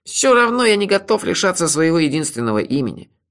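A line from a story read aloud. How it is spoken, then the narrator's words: Grumbling. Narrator (Russian): проворчал он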